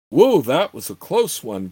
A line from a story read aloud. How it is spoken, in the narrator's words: Gord muttered to himself